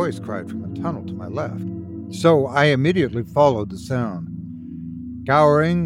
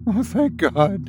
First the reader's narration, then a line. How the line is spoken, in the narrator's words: she whimpered